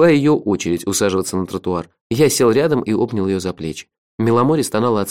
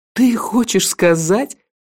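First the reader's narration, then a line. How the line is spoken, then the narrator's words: Loud laughter. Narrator (Russian): Миламори расхохоталась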